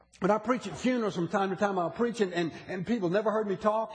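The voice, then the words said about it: Southern US accent. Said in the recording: “I'm from the South. From the deep South. I said, but I've lost almost all my accent. And they said, oh, no, you hadn't.”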